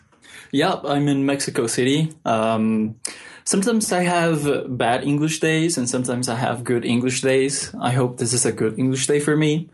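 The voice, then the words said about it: Mild Mexican accent in English. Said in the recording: “your accent... I try to keep my accent as neutral as possible, but you know, I'm obviously Mexican, so it sometimes comes through.”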